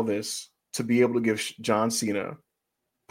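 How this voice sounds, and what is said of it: Usual voice. Nothing is said of it.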